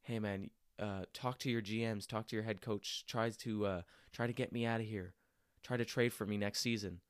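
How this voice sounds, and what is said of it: Whispered speech. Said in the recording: “whispering,”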